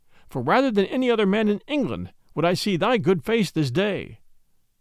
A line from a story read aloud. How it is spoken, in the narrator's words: cried he